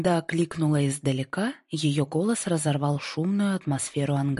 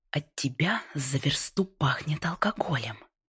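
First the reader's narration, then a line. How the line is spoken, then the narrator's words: Hissed. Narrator (Russian): прошипела Лорел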